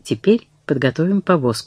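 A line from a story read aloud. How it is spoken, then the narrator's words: Plain. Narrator (Russian): сказал он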